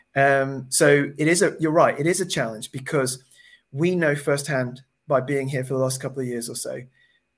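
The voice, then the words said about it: Southern English accent. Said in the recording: “you can probably tell from my accent, I don't come from Burnley. I live down in Surrey”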